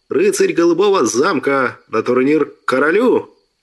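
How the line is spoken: Servant shouting. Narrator (Russian): прокричал слуга

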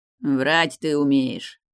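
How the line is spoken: Scoffing snort. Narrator (Russian): хмыкнул Фиери

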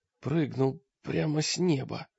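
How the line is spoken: Hoarse rasp. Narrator (Russian): прохрипел человек

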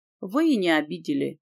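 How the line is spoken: Sad smiling tone. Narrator (Russian): грустно улыбнулся Лэнс

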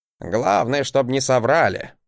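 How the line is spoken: Grumbling. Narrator (Russian): проворчал Гринальф

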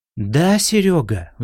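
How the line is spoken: Sighing. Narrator (Russian): вздохнул Коля

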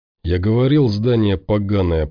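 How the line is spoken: Grumbling. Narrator (Russian): проворчал тот

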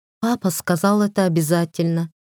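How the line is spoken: Sighing. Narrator (Russian): вздохнула Светлана

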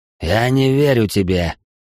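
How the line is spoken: Sudden growl. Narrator (Russian): прорычал вдруг Ританин

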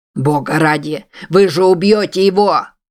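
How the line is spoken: Shouting. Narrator (Russian): закричал он

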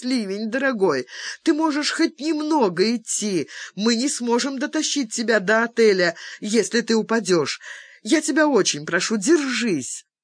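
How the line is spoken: Tearful pleading. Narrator (Russian): Джастина со слезами взмолилась

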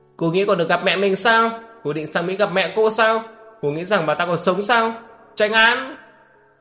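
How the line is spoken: Screaming triumphantly. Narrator (Vietnamese): Ổn Nú Khiên được thế cả gào lên

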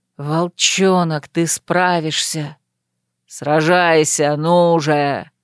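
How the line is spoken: Two voices thundering together. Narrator (Russian): Два голоса прогремели хором, и оба принадлежали лордам Эле

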